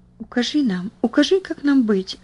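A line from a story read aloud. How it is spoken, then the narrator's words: Urgent whisper. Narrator (Russian): зашептала Бетси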